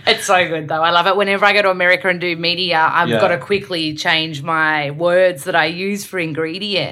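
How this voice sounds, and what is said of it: Strong Australian accent. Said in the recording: “my accent is really strong, Australian, I have to slow down and kind of like – fix my R's.”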